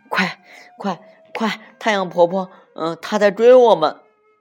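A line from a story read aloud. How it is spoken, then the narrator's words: Breathless, panting. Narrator (Chinese): 小娃子和小女奴 喘着气说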